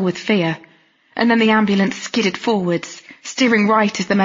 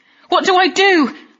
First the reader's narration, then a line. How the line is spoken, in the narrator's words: I yelled at Donna